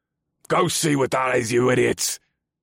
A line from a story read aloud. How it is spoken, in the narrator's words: The black-haired elf barked